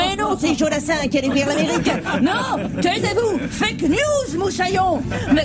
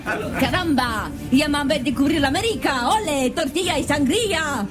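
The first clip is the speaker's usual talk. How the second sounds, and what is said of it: Put-on Spanish accent. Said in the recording (French): “Mais c'est quoi cet accent espagnol, capitaine?”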